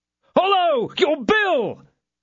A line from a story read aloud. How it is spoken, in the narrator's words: shouted mine host, whose affection for the traveller was changed to the most profound contempt when he saw him departing without paying